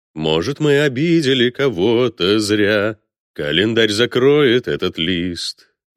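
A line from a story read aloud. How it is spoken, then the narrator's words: Loud singing phone. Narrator (Russian): громко пропел мобильный телефон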